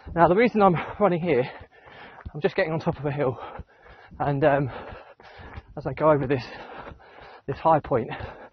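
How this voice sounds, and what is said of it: Out of breath while speaking. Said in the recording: “I'm probably more out of breath than I usually would be”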